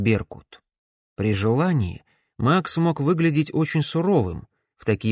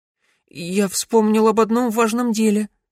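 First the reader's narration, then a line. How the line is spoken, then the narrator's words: Timid babble. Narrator (Russian): пролепетал Верн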